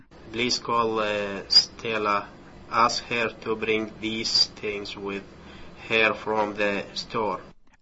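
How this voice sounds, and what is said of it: Iraqi-accented English. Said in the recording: “compare and analyze the accents of different English speakers. For example, here is a 32-year-old Iraqi man.”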